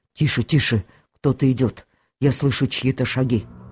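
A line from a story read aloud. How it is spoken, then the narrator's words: Frightened voice. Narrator (Russian): Бумба и сказала испуганным голосом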